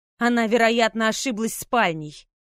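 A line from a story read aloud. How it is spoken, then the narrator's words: Grumbling. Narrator (Russian): проворчал Райан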